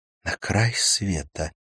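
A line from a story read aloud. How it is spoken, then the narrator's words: Whispered. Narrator (Russian): прошептала она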